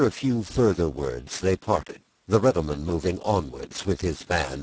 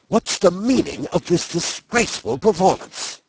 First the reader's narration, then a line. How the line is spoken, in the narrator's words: she said sternly